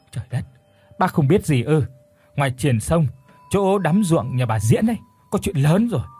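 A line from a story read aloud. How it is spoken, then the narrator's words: Pale, stammering. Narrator (Vietnamese): Chị Toan mặt thì xanh như đít nhái, lắp bắp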